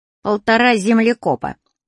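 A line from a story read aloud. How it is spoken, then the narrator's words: Deliberately very rude. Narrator (Russian): ответил я нарочно, очень грубо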